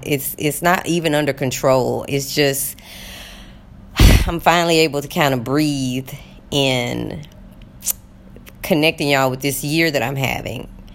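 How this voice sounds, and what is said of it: Shaky, emotional voice. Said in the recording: “If you hear my voice shaking, it's because I'm a little emotional”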